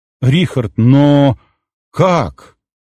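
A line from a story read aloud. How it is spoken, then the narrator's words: Strained, shaken. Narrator (Russian): выдавил Алекс из себя, когда немного отошел от шока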